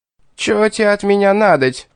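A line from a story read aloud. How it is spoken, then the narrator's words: Startled retort. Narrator (Russian): вскинулся Визгун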